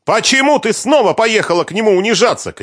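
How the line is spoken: Shouted. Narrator (Russian): крикнула дочь

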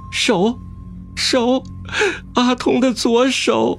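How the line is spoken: Sudden crying. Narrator (Chinese): 忽然阿丁哭道

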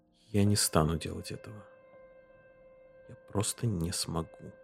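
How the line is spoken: Near whisper. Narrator (Russian): сказал он почти шепотом

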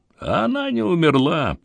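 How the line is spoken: Wheezing rasp. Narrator (Russian): просипел он

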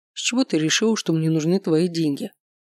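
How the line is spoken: Calm, contemptuous question. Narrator (Russian): спокойно спросил Михаил, но с таким презрением

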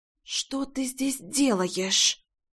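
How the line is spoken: Struggling hiss. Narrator (Russian): прошипела Рейна, пытаясь вырваться из его захвата

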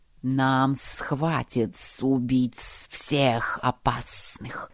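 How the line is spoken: Hissing creatures. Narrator (Russian): шипели сомнарисы

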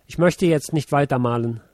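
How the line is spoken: Plain. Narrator (German): sagte er

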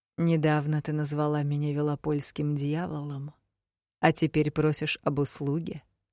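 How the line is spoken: Very quiet. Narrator (Russian): Знакомый голос звучал тихо-тихо

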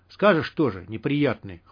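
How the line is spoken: Scoffing. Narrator (Russian): хмыкнул Юрка

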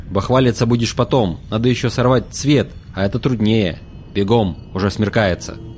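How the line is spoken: Sudden angry interruption. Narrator (Russian): Мрак внезапно прервал злым голосом

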